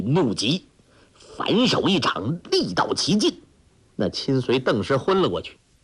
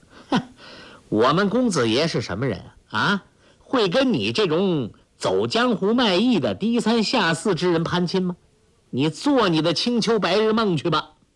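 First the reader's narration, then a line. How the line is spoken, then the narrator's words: Sneering attendant. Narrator (Chinese): 公子的一名亲随冷笑说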